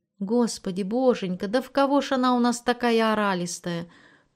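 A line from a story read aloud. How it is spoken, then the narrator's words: Soft, tender lament. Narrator (Russian): тихонько и ласково сетовала Евгения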